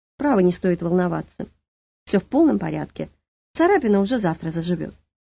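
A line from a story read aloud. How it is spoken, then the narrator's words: Calm. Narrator (Russian): Наталья спокойно сказала перепуганной мастерице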